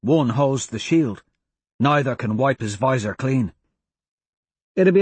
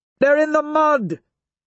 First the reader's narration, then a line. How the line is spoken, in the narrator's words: Mustang shouts